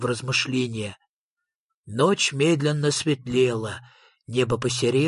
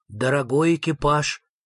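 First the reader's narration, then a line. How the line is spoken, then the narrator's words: Solemn announcement. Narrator (Russian): торжественно возвестил Фредриксон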